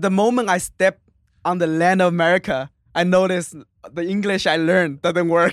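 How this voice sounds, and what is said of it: Non-native English accent. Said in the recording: “my English, you can hear is still accent.”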